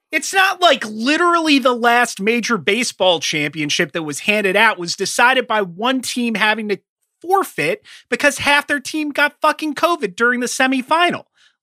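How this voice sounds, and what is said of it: Yelling, loud agitated speech. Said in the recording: “So much for not yelling.”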